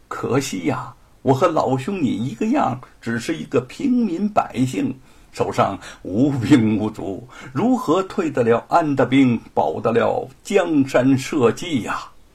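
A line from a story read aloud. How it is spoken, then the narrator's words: Mysterious smiling woodcutter. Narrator (Chinese): 樵夫神秘的一笑说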